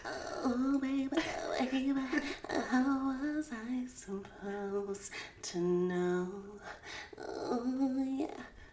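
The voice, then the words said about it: Imitates a pop singer's singing voice. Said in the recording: “do a Britney Spears impersonation”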